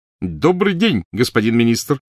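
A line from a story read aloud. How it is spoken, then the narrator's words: Shout. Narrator (Russian): крикнул Перси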